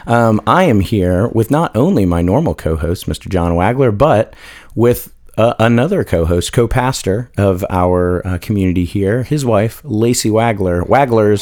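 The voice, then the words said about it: Hoarse, smoky voice. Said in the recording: “I've got a frog in my throat, so you guys are just going to have to deal with my smoky, sexy voice”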